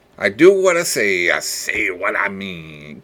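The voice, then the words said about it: Cartoon sailor character voice impression. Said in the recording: “that was my crappy impersonation of Popeye”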